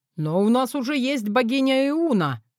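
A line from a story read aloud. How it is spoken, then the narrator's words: Shout from the hall. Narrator (Russian): крикнули из зала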